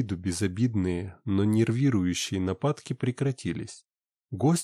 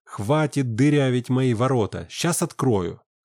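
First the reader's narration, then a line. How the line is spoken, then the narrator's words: Exasperated shout. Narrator (Russian): Не выдержав, я крикнул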